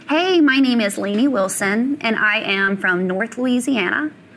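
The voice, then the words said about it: Put-on Valley girl accent. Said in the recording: “her impression of a Valley girl. What would she sound like without a Southern accent?”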